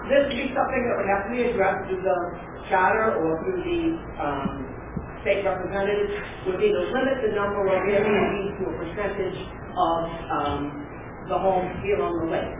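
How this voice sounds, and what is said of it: Teacher voice. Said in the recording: “I'll use my teacher voice.”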